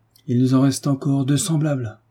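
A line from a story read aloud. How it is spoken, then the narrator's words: Sad reply. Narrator (French): répondit Paul tristement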